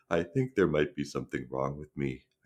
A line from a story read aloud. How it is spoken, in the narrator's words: I said quietly